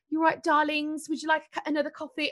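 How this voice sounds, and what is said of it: Put-on English accent. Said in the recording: “sorry for the English accent. Someone's going to mock me for that.”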